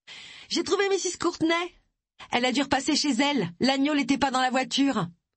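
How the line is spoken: Shouted from a distance. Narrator (French): cria Miss Sims depuis la porte d'entrée

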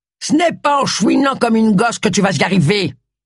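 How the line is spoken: Curt, dry tone. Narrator (French): dit Charles d'un ton sec

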